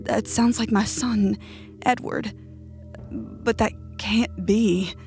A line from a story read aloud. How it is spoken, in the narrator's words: stammered